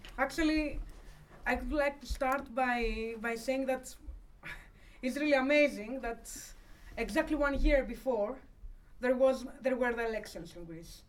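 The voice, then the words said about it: Non-native English accent. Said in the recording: “forgive me for, you know, my accent and sometimes my difficulty to express myself very easily”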